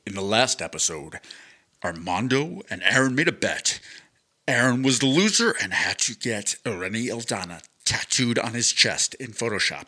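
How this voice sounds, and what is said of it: Deep movie-trailer announcer voice. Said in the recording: “I want to do like the announcer voice. You know how they do that like when they're doing recaps? ... I got to get my voice deeper.”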